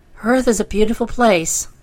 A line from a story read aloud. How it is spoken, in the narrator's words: cried Trot